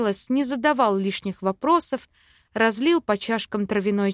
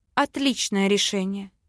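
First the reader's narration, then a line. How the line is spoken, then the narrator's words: Exhaling. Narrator (Russian): Выдохнула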